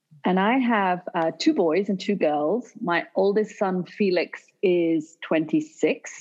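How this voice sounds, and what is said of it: British accent. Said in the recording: “will have the British accent.”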